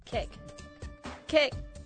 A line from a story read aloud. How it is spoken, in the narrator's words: she would yell